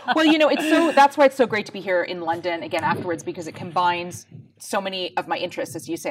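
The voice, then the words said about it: Canadian accent. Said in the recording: “As you can probably tell from my accent, I grew up in Canada”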